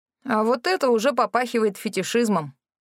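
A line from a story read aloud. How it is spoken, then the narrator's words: Grumbling. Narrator (Russian): пробурчал Рэнди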